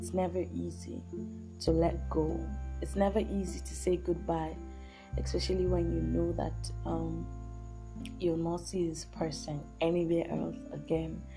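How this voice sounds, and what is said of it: Low, subdued voice. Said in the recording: “hear from my voice that I'm a bit, I'm a bit low”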